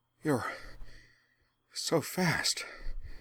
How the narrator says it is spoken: Azula gasped

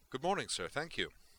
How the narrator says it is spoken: said Prescott cheerfully

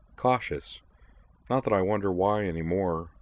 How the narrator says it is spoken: he added sadly

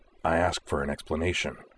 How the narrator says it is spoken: he said, his voice dangerously low

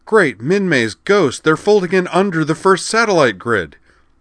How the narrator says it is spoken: shouted

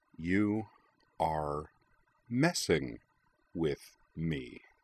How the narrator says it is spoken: said Jing slowly

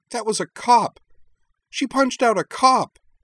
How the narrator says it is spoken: Shiori cried

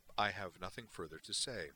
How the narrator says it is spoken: Valeris replied flatly

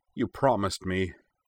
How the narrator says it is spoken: Desperation sparked in his eyes as he added plaintively

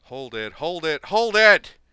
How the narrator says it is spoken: Daver yelled

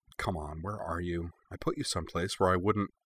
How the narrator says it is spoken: with renewed energy, she muttered

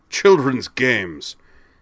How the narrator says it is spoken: he scoffed

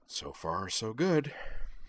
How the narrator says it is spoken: she murmured

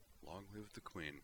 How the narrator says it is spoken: he murmured with less rote form and more warm admiration

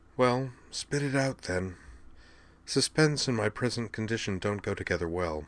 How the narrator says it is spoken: she said calmly

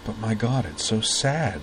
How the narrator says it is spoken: he whispered

